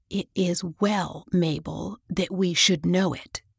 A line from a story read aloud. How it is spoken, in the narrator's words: she whispered